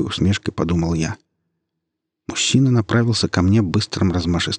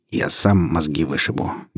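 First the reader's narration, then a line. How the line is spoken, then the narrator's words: Gruff mumble. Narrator (Russian): буркнул первый наемник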